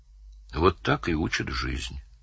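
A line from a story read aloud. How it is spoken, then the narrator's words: Quiet. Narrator (Russian): сказал он тихо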